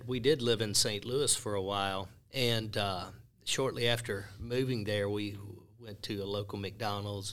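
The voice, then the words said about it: Southern Mississippi accent. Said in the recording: “you got an accent, even in the South ... I speak Mississippi”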